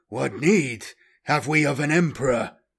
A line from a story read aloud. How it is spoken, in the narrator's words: he roared